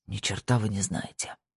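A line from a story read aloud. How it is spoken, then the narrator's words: Tearful whisper. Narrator (Russian): прошептал Пуласки, борясь со слезами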